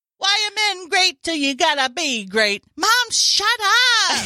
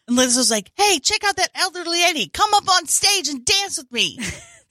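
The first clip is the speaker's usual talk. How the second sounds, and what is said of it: Put-on British accent. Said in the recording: “At first, I thought you were doing a British accent.”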